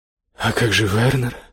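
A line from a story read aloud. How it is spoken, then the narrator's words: Trembling question. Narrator (Russian): дрожащим голосом спросила Иоганна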